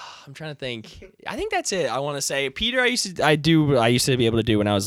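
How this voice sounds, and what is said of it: Usual voice. Nothing is said of it.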